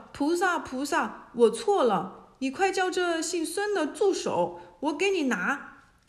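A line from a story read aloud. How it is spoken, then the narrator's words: Demon king cries out. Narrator (Chinese): 妖王叫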